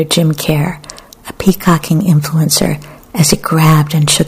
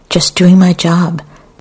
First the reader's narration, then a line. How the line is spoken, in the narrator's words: Another man cried